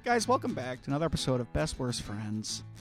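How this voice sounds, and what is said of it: Calm smooth radio-announcer voice. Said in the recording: “Just going like NPR voice after screaming.”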